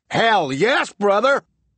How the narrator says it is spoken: Buck roared

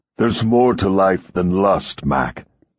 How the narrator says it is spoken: he says roughly again and again

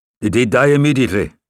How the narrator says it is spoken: Wolkoff asked, raising his voice

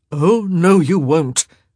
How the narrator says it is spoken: he growled

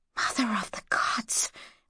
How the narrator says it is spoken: whispered Mara

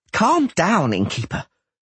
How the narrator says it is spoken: Dainty Beaverbelt panted

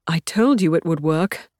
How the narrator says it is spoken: says in a strangled voice as tears of gratitude flood his eyes

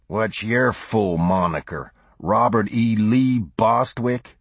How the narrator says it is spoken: he growled insolently

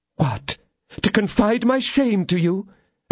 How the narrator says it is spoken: exclaimed the lady, with the blush of modesty upon her face

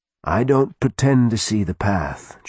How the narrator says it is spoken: Jonah said calmly

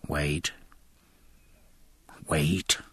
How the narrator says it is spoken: murmured Jack

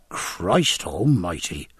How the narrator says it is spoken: murmured the boatswain, deep struck with awe

